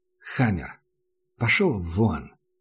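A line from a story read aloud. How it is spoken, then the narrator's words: Tired. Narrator (Russian): устало сказал Макс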